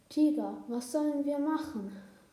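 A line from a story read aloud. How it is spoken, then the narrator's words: Sad call. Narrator (German): rief traurig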